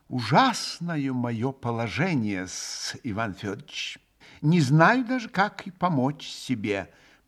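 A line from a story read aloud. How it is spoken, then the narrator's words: Firm, deliberate, ending in sigh. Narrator (Russian): проговорил он вдруг твердо и раздельно и с последним словом своим вздохнул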